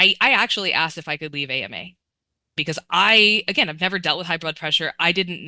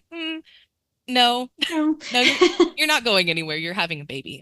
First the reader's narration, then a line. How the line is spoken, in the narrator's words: She kind of laughed at me and was like